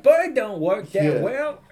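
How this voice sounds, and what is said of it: Put-on English accent. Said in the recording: “that's my English accent, I'm sorry”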